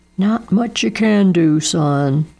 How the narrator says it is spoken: said Dado, shaking his head sadly

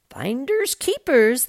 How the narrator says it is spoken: the fisherman exclaimed

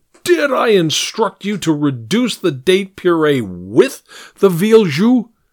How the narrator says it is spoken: Gehring shouted

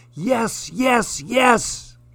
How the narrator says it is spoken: shouted

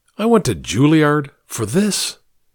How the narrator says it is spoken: One of them, fed up, exclaims

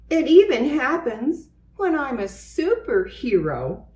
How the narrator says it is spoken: he exclaimed

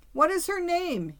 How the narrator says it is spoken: he was crying in an aggrieved tone

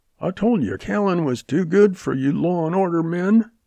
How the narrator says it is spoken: Jack yelped

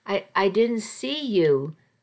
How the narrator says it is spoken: I stammered

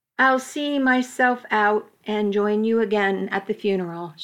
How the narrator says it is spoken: she said evenly

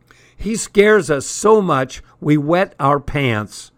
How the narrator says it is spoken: he shouted over the blast of air, which was screaming through the open windows

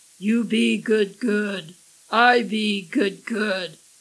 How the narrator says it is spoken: Loisvitch rumbled

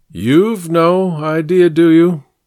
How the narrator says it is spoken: he said, his voice entirely flat

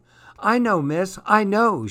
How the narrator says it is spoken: shouted happily

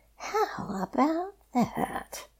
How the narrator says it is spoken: Fox whispered happily in the dark

